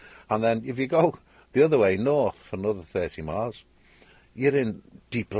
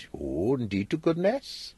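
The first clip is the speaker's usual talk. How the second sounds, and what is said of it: Sing-song Welsh accent. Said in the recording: “Wales... They all sing when they talk like that”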